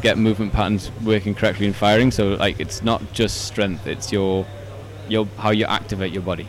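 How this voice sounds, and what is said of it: Geordie accent. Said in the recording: “your cute little Geordie accent”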